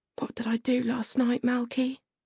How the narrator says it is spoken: whispered

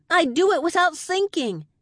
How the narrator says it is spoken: I shouted, trying to make him understand

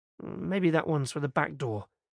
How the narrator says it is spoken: mumbled to himself

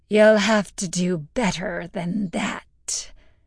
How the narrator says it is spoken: the demon sneered, its deep, scratchy voice at odds with Agnes's body

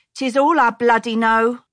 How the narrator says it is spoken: More fiercely, she added

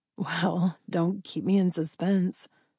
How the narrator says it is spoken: Jillian chuckled

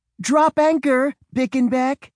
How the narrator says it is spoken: cried Mom

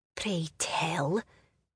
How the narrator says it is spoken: Seamus whispered so softly she could barely make out his words

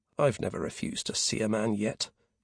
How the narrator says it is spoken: murmured to himself

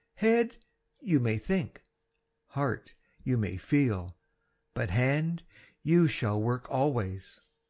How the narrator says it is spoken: I cheerfully learn to say

